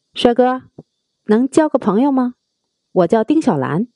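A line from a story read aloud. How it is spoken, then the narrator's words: Friendly, smiling. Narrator (Chinese): 她大大方方的朝阿屁伸出手，微微一笑，说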